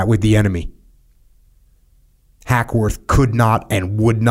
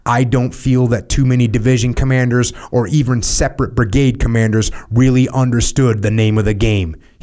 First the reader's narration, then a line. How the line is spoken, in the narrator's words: said